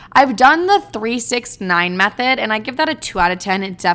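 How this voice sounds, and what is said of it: Usual voice. Nothing is said of it.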